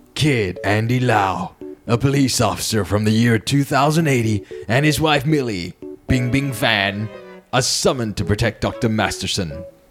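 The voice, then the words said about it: Dramatic movie trailer announcer voice. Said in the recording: “I'll give it the appropriate gravitas ... I'm gonna use my cinema announcer voice.”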